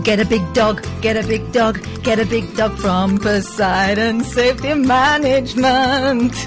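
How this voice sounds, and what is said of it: Sung put-on flamenco-style accent. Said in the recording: “You're doing the accent I was desperately trying to avoid in the last song ... I was doing a flamenco vibe.”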